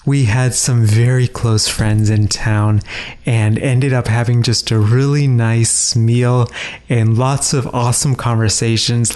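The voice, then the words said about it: Slightly hoarse voice. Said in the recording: “my voice sounds a little bit hoarse. ... my voice is definitely not where it is usually”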